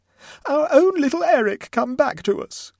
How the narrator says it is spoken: cried the Mumbies in unison

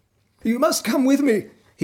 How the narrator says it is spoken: he panted

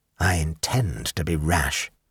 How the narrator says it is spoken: said Rex quietly

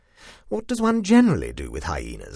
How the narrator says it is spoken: I asked crossly

